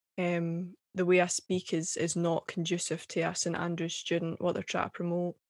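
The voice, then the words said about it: Scottish accent. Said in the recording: “my accent's unprofessional ... when I speak in a Scottish accent”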